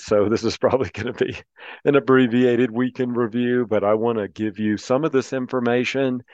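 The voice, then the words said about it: Hoarse, strained voice. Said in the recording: “You can probably hear I'm already losing my voice,”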